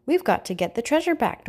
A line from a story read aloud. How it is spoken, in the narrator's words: Dora exclaimed